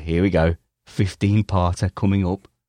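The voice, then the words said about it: Put-on northern English accent. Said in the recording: “I'm doing a northern accent.”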